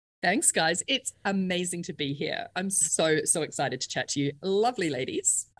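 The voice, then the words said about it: Australian accent. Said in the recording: “from one of my favorite places in the world, Australia. You might have heard that little accent that just kind of snuck in”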